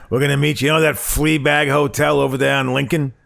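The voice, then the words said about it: Gruff old boxing trainer voice. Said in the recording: “I don't know what accent that was. ... that was Boxer. That was Boxer trainer. ... Mick. ... That was your speaking Mick.”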